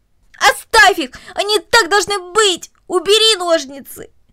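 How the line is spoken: Desperate shout. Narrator (Russian): Корнелли, отбиваясь от него обеими руками, буквально закричала

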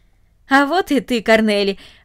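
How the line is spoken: Joyful. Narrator (Russian): радостно сказал он

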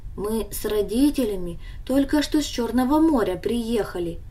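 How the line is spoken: Calm explanation. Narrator (Russian): объяснил он ей спокойно

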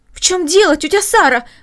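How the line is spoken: Exclaimed. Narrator (Russian): воскликнула Маша

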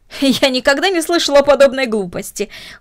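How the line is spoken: Exclaiming. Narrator (Russian): воскликнула мисс Дорнер

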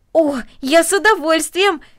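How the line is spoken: Exclaiming. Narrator (Russian): воскликнул Дино

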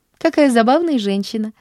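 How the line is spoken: Laughing. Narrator (Russian): засмеялась Поллианна

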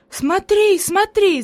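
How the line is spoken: Enthusiastic shout. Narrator (Russian): закричала Хайди с энтузиазмом

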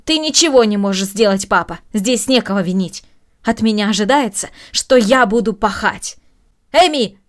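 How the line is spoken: Raised-voice shout. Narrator (Russian): повысив голос, крикнула Маша

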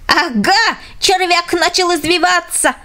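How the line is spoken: Fat man shouting. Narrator (Russian): закричал толстяк

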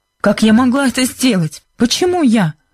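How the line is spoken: Exclaiming, offended innocence. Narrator (Russian): воскликнула Бренда с видом оскорбленной невинности

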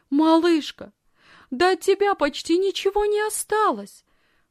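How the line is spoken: Agitated exclamation. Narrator (Russian): взволнованно воскликнула она

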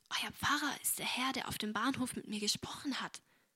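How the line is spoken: Whispered. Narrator (German): flüsterte sie Agnes zu

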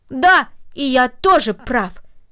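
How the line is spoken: Triumphant exclamation. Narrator (Russian): торжествующе воскликнул Дино

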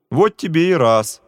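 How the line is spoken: Laughing. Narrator (Russian): засмеялся товарищ

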